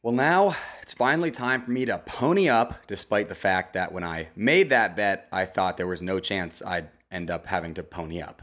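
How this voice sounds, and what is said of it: Hoarse, strained voice. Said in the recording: “which caused me to scream, and that's why I lost my voice.”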